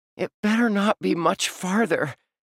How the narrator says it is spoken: he panted

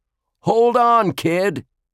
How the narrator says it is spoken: Jake yelled

